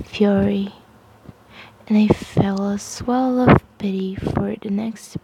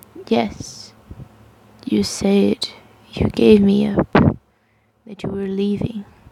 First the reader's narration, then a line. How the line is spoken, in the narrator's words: he said, in that same calm level voice, like someone trying to talk to a jumper on the ledge